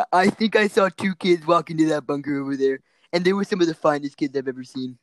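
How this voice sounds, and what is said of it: Imitates another person's voice. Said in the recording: “I'm Donald Trump.”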